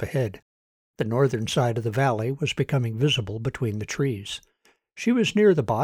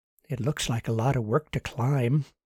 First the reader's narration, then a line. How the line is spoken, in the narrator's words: she muttered to her jar